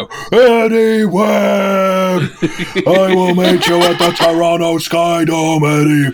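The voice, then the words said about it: Yelled wrestling promo impression. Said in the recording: “recording Ultimate Warrior promos ... heard you just yelling ... yelling like that.”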